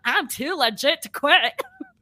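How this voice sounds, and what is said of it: Weak put-on Irish accent. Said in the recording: “That's your Irish accent ... That's my Irish accent ... I can't do an Irish accent, but that's what he sounds like”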